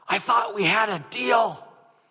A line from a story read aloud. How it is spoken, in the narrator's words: he leaned forward to the pastor and hissed